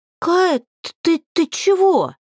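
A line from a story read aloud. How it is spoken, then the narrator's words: Stammering in astonishment. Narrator (Russian): От изумления подруга начала заикаться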